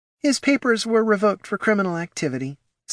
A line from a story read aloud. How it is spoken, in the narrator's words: sighed Mrs